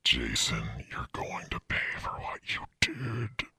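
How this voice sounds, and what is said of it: Deep menacing voice. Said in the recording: “deep voice ... A deep voice keeps saying my name.”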